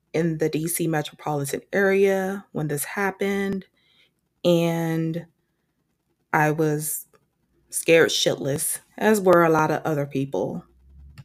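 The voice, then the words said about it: DC accent with Southern tinge. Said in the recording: “a lot of you can hear the DC accent in my voice when I say things like Maryland or strawberry ... Some people may even hear Southern accent in my voice”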